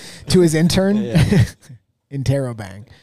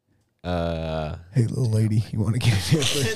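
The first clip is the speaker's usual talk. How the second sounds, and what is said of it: Imitates another person's voice. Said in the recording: “That's a pretty good impression. Really good Bill Clinton.”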